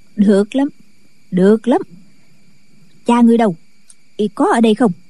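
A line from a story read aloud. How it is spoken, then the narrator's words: Smiling old woman. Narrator (Vietnamese): Kim Hoa bà mỉm cười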